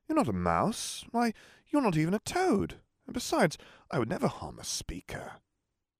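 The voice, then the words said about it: Bemused feminine character voice. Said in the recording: “in a bemused feminine voice”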